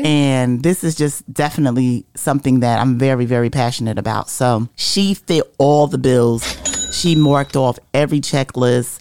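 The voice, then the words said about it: Hoarse voice. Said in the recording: “my voice is going hoarse”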